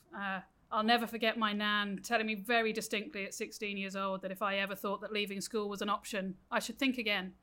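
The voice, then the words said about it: British accent. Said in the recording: “as my accent gives away, I grew up in the UK”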